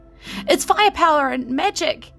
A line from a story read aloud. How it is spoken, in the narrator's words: She screamed at them, trying to make them understand